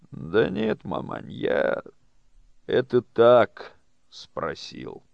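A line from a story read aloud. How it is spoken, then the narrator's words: Tired wry chuckle. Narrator (Russian): устало усмехнулся Павел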